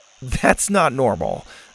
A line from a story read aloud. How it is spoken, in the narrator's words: Zeta laughed